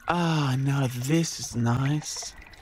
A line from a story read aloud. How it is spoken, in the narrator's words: sighed the Yowie